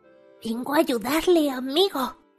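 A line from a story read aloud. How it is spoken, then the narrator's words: Whisper. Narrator (Spanish): le susurró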